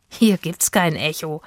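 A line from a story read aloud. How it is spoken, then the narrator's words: Laughing. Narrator (German): lachte Itzig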